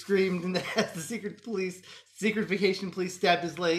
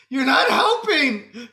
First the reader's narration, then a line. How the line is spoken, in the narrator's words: Frank cries